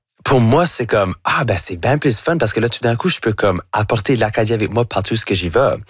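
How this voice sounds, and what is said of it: Acadian French accent. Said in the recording (French): “votre accent acadien ... j'ai un accent qui va jamais être neutre ... avec mon chiac”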